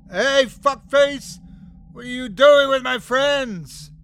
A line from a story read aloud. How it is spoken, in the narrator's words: I yelled